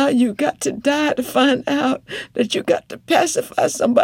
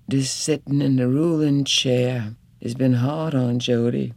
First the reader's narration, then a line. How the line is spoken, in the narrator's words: she muttered out loud